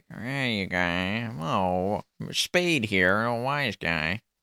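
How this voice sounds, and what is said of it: Bad imitation of another person's voice. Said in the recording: “Talk like ... I'm doing a bad impression. ... Yeah, terrible. ... he had that kind of like sound.”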